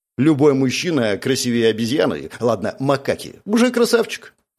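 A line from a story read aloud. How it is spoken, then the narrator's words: Plain. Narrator (Russian): ответил Павел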